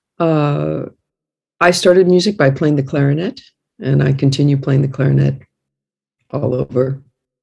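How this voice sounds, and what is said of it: American accent. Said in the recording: “As you can tell from my accent, I'm American born”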